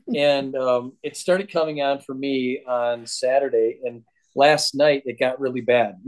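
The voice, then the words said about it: Sick voice from a cold. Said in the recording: “sick with a cold and stuffy ... You can hear it in my voice right now, I think. And I'm at the verge of coughing.”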